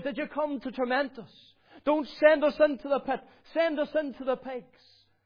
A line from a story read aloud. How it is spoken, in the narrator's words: he cried out to the Lord